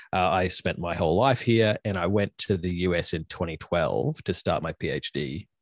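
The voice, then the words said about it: Australian English accent. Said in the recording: “So I'm obviously from Australia. You can tell from my accent.”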